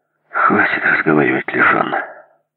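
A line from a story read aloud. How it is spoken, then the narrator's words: Tired. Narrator (Russian): сказал я устало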